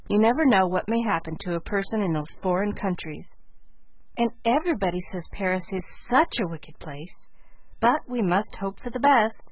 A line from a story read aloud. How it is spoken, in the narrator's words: she concluded in a resigned tone